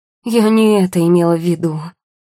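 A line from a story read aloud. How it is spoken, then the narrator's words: Moaning. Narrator (Russian): простонала девушка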